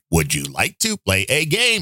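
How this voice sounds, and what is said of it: Robotic computer voice. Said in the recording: “great, great cyborg impression ... kind of swallow your words ... very authentic”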